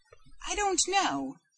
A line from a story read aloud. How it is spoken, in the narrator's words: she faltered